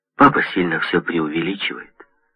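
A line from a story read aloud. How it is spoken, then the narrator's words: Calm voice. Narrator (Russian): спокойно звучит мой голос, когда я сказал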